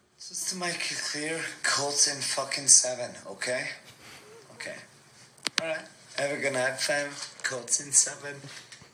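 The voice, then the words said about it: Irish accent. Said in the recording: “That is an Irish accent.”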